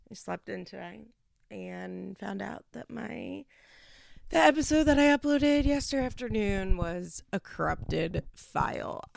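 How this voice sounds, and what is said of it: Groggy just-woke-up voice. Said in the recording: “my voice sounds crazy because I just woke up”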